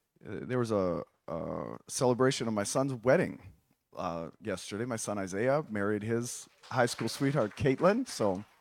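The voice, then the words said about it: Hoarse, strained voice. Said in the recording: “my voice is a little bit different today... My voice is gone”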